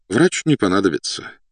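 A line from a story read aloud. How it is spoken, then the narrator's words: Officer's sigh. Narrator (Russian): вздохнул подполковник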